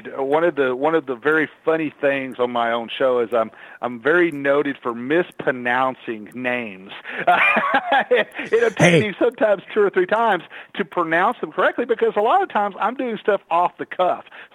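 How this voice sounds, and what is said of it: Strong Texas accent. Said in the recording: “I have a very strong Texas accent.”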